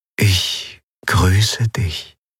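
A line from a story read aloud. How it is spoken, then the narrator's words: Soft whispering inner voice. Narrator (German): eine sanfte Stimme in ihrem Verstand säuseln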